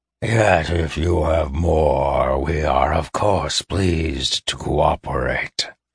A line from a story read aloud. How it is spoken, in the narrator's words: rasped the other